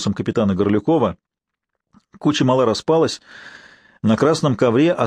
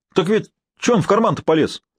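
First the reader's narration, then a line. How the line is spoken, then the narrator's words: Exclamation. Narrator (Russian): воскликнул Степанов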